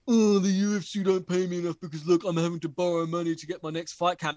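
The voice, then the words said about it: Imitates another person's voice. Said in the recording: “That's a great impression of Francis, by the way.”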